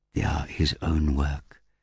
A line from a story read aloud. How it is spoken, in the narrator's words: Zerbitar whispered to Virai